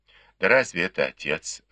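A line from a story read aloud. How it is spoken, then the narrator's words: Sighing. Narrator (Russian): вздохнул Бао Юй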